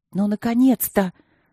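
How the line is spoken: Hissed. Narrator (Russian): зашипела она на Мартина

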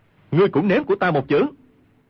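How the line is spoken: Shout. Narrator (Vietnamese): quát

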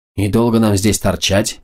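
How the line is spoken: Grumbled. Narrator (Russian): проворчала Катарина

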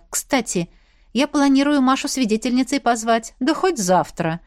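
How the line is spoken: Agreeing. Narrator (Russian): согласился Костя

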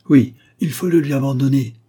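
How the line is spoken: Group exclaiming. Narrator (French): s'écrièrent-ils

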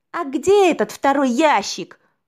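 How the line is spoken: Shouted out. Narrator (Russian): выкрикнул гость

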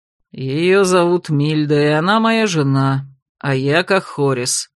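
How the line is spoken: Mock-menacing male growl. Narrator (Russian): нарочито грозно рыкнул мужчина

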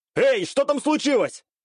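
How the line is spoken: Shouting downward. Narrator (Russian): крикнуть вниз

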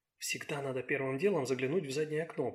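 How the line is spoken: Whispered. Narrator (Russian): прошептала она

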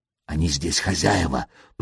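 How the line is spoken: Whisper. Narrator (Russian): прошептал он

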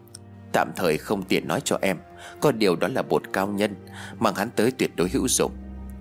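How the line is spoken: Quiet voice. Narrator (Vietnamese): Tôi nhỏ giọng rồi nói

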